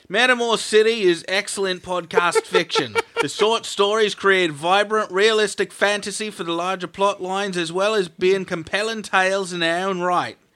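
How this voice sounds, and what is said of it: Put-on Australian accent. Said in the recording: “You're doing the right accent, mate. ... You want to be talking in Australian, mate.”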